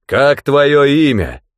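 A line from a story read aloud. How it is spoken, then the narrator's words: Thundering rider's voice. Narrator (Russian): прогремел голос всадника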